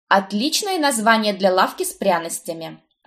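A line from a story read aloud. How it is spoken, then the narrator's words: Snapping. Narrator (Russian): огрызнулась я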